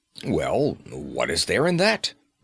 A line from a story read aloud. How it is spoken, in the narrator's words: growled Flambeau